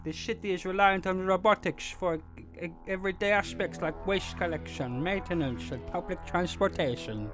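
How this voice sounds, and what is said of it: Attempted Swedish accent, sounding Dutch. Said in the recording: “what's the Swedish accent? ... I'm thinking Dutch ... I can't do Swedish ... Dutch, I don't even know”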